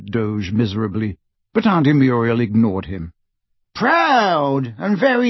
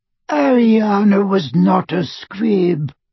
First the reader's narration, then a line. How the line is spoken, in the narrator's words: wheezed Doge